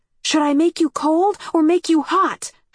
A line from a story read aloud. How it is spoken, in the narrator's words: shouted